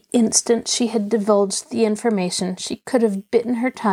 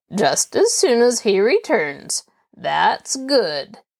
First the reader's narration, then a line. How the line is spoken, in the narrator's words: Nathan sneered